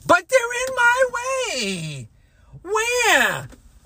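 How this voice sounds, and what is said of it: Whiny baby voice. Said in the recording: “I say in my baby voice.”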